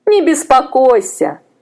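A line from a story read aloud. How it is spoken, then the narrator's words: Women laughing. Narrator (Russian): засмеялись женщины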